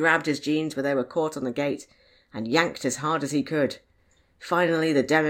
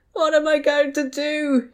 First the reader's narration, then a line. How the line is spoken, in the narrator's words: he wailed